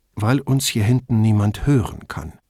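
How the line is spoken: Dry retort. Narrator (German): versetzte Brunetti trocken

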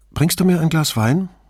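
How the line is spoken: Normal voice question. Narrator (German): fragte sie mit normaler Stimme

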